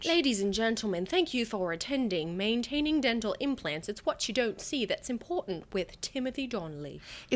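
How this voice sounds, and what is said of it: Put-on official British-Australian accent. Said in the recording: “That was a good accent. ... you sounded very official, like you were introducing him ... Is that like British that? Or is that like on its way to Australian?”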